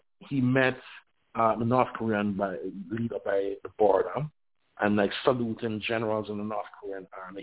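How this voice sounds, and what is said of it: Strained, failing voice. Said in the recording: “Sorry, I'm losing my voice.”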